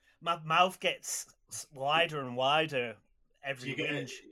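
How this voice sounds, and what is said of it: Usual voice. Nothing is said of it.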